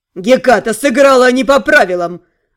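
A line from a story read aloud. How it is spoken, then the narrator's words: Angry. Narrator (Russian): зло произнес Дарк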